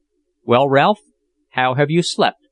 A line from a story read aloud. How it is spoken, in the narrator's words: said Jack in a listless tone on rising one morning